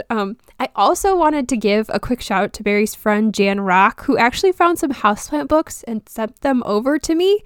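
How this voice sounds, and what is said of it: Rough, stuffy voice from a cold. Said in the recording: “I do have a cold, so I'm sorry if I sound a little rough ... I just a little stuffy ... sorry if I sound a little funny”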